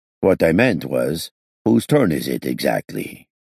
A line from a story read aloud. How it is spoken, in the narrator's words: Olaf asked as calmly as before